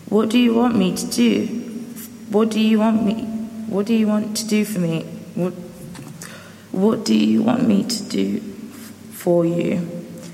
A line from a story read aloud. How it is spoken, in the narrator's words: Jesus asked him